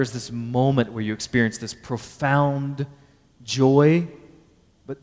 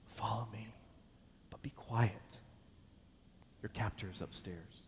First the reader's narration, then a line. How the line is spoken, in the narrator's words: they whisper to you